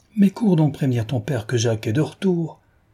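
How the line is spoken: Sudden lively exclamation. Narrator (French): s'écria tout à coup la pétulante Madame Passemard

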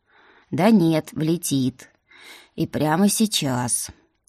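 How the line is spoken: Sighing. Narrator (Russian): вздохнул Лилерий

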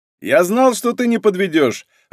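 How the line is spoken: Joyful reply. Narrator (Russian): радостно ответил Таран

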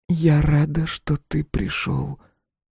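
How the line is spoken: Whisper. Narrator (Russian): прошептала

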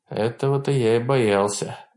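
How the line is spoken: Sigh. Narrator (Russian): вздохнул Уильям

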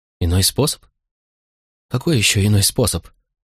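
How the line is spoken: Astonished sobbing, composure lost. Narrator (Russian): всхлипнула изумленно Помпония, вмиг утратив свое патрицианское самообладание

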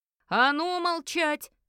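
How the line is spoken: Bewildered shout at full strength. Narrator (Russian): Закричал, что есть силы, уже совсем не понимая, что здесь происходит

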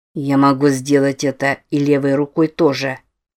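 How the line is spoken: Plain. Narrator (Russian): сказал Дэниэльс

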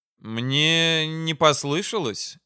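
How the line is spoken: Uncertain grimacing question. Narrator (Russian): неуверенно скривился Яким

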